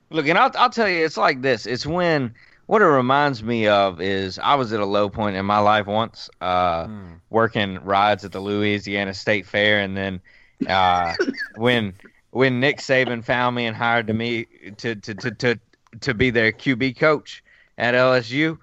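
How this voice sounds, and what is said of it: Put-on Cajun accent. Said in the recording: “Now you're doing a Cajun accent too, because of the LSU thing. ... It's getting more and more Cajun as we go.”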